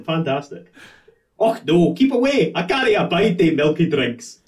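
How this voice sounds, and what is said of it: Scottish accent. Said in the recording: “you're the only one with the authentic accent ... I can only do a Scottish accent ... this is one with a Scottish accent”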